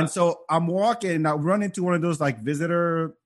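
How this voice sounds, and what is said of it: Usual voice. Nothing is said of it.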